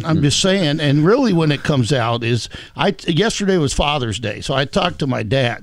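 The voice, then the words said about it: Southern American accent. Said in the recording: “I've always had a lot of a Southern accent... it's hard to turn it off after having a long conversation with my dad”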